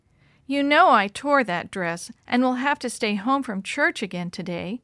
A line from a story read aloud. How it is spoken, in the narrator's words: Lottie said sadly